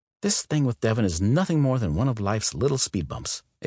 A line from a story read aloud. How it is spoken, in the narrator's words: Ava said